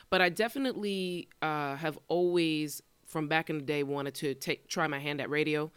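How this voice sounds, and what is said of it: Radio-style speaking voice. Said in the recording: “You have a radio voice, by the way.”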